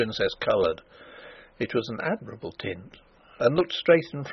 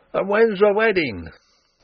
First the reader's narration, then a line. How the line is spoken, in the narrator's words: a rough fellow cried out